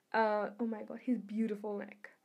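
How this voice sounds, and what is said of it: Weak attempt at British accent. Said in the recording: “I can't do a British accent, I'm sorry.”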